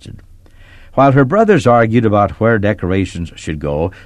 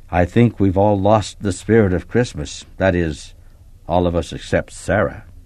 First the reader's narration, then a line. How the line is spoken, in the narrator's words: Mom said quietly